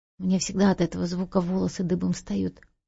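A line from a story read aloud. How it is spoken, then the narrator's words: Mumbling. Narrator (Russian): пробормотал Дуг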